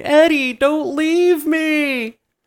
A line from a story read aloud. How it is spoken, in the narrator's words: The Strangler starts screaming